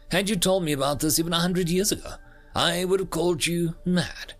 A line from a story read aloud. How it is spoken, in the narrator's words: I chuckled